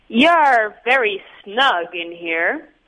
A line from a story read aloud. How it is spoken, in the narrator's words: piped old Mr